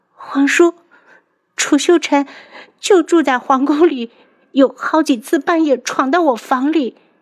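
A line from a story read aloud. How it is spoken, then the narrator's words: Breaking down, crying. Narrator (Chinese): 多日来的担惊受怕 … 一下子崩溃了，哭着道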